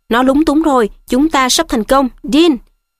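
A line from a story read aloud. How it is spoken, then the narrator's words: Shouting. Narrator (Vietnamese): Thầy Lupin la lên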